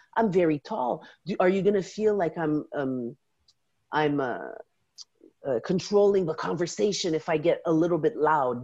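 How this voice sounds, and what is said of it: French accent in English. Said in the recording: “my first language is French. When I speak English, do you hear my accent?”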